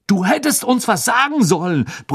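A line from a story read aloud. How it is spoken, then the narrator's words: Roar, half annoyed, impressed. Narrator (German): brüllte Fred halb verärgert, doch auch schwer beeindruckt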